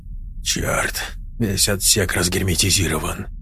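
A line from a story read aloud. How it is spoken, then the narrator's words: Muttering. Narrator (Russian): пробормотал техник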